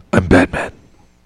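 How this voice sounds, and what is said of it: Batman character voice. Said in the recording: “in his Batman voice.”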